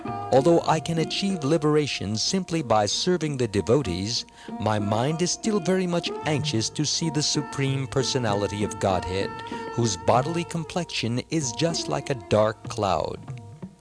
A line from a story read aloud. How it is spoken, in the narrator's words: Another devotee once exclaimed